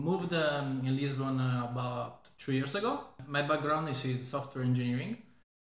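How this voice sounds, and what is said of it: Italian-accented English. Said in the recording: “As you can tell from the accent, I'm Italian as well.”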